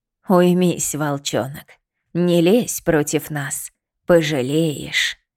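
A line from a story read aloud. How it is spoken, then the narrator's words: Hissing from all around. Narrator (Russian): Зашипело отовсюду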